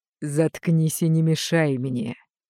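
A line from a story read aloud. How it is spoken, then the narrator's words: Growling inner voice. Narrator (Russian): рычание в голове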